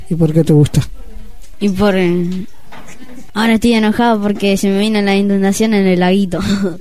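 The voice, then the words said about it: Man's voice for a character. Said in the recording (Spanish): “voz de hombre.”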